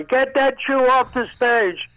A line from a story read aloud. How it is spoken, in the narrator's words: she kept on yelling